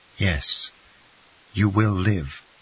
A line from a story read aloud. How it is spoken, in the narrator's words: he said tenderly